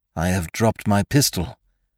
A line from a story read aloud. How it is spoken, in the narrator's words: muttered Sime